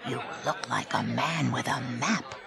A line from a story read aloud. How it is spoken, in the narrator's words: whispered the man in black